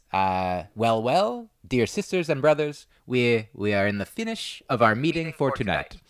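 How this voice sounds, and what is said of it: Light Peruvian accent impression. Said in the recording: “He is from Peru, so I'm not trying to do a full-on accent, but I love the way he sounds.”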